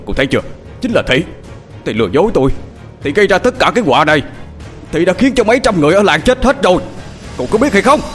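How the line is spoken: Shouting. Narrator (Vietnamese): ông thập hét lên

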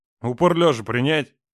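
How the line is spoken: Thunderous bark. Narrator (Russian): Гаркнул Роман так, что я сама чуть было не упала на землю

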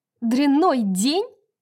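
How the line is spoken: Louder shout. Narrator (Russian): еще громче закричала Брайс

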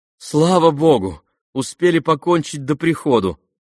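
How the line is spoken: Joyful. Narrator (Russian): радостно сказала Вера

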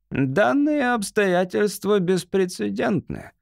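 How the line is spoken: Brittle, sharp voice. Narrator (Russian): главнокомандующий ломким резким голосом произнес

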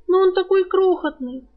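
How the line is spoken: Sobbing young woman. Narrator (Russian): всхлипнула девушка

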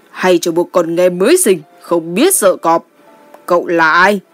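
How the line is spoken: Angry laughing. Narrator (Vietnamese): Giận dữ cười nói

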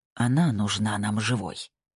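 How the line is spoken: Whispered. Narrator (Russian): прошептал

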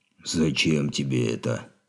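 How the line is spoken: Hoarse orc voice. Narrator (Russian): хрипло заговорил орк

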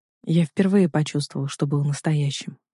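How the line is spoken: Quiet. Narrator (Russian): говорит он тихо

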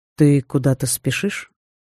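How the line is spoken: Calm, hidden irritation and worry. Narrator (Russian): спокойно спросил он, но в его словах проскользнули скрытые нотки раздражения и беспокойства

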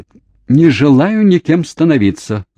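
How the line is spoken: Yelled. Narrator (Russian): завопила Кейт

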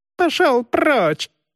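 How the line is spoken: Sudden shriek. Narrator (Russian): вдруг завизжал толстяк

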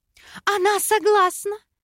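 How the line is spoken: Joyful announcement. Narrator (Russian): радостно заявила Вера

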